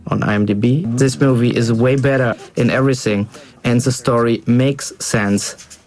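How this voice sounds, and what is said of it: German accent, possibly Bavarian. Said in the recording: “a German accent ... Is that a real German accent? ... I think so ... sounds like Bavarian.”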